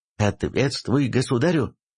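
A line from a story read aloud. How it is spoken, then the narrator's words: Angry snarl. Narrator (Russian): зло ощерился ротный на волынянина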